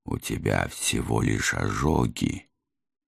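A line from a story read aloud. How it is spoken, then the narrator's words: Gentle reproach. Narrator (Russian): мягко упрекнул я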